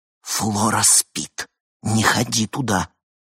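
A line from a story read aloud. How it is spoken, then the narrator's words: Loud whispered command. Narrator (Russian): приказала громким шепотом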